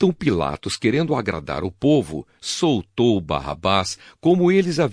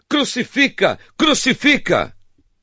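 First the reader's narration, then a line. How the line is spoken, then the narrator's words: Shouting even louder. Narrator (Portuguese): gritaram ainda mais alto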